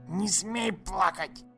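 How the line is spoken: Hissed right in face. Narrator (Russian): Прошипел он в самое лицо мальчика

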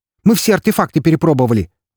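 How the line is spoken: Exclaimed. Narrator (Russian): воскликнул

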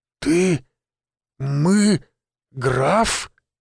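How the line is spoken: Incoherent, forced out. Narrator (Russian): бессвязно выдавил из себя он

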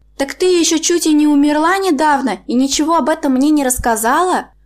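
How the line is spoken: Old woman exclaiming with pathos. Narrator (Russian): воскликнула старушка, патетики в ее голосе

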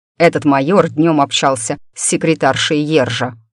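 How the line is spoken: Snorting. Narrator (Russian): хмыкнул Дан

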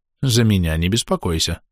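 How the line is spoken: Calm. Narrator (Russian): спокойно сказал Перифил

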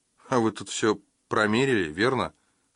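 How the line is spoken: Plain. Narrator (Russian): сказала она

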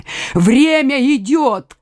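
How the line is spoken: Jailer shouting. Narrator (Russian): крикнул тюремщик

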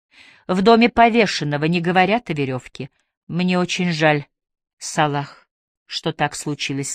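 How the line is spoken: Plain. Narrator (Russian): сказала она

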